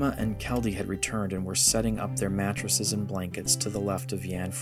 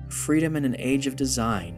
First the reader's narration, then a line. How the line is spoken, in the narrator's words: Rendra said